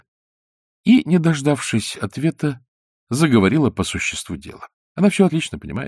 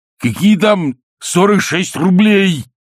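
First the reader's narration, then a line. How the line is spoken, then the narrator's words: Sudden terrifying voice. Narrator (Russian): страшным голосом сказал вдруг Александр Иванович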